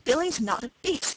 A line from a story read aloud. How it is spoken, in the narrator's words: said Wesley hotly